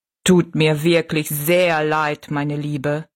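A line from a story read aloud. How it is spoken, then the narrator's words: Plain. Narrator (German): sagte der Riese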